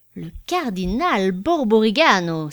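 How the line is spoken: Exclaiming. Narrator (French): s'écria Bianchon

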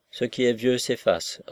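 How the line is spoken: Curt reply. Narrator (French): répondit-elle sèchement

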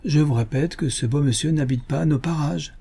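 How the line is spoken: Bad-tempered exclamation. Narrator (French): s'écria le colonel d'un ton de mauvaise humeur

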